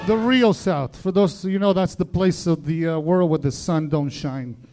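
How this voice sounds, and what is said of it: Argentine accent in English. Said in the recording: “Is your accent Italian, or is it Israel? ... Argentina.”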